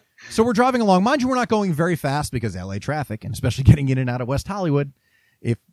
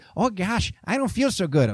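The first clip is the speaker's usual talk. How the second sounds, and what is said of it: Fargo-style Minnesota accent. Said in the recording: “Francis McDormand in Fargo. ... it's the Fargo kind of accent. ... Exactly that kind of accent.”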